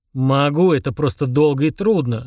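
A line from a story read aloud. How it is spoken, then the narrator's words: Snapping retort. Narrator (Russian): огрызнулся Фрундорог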